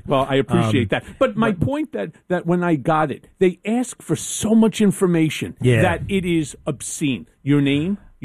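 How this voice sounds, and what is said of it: Strong New York accent. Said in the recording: “you got one of the realest New York voices I've ever heard”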